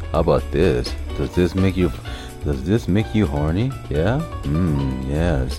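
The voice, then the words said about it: Put-on sexy, seductive voice. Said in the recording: “Sexy voice. You want a sexy voice?”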